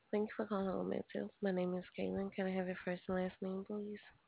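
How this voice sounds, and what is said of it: Congested, tired-sounding voice. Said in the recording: “you sound really tired ... I have bad sinus. I'm not tired.”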